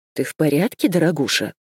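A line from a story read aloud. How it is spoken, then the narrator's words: Plain. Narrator (Russian): спросила она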